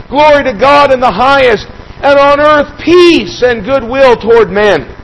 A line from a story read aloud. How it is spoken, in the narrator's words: the heavenly host cried out